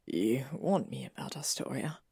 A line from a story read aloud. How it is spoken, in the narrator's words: Draco whispered